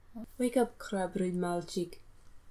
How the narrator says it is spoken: she says softly

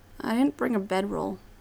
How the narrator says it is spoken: says quietly

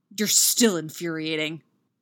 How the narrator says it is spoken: Derek growls

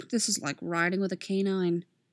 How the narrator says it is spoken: Sheriff grumbled

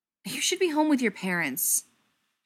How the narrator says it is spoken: Tom snapped

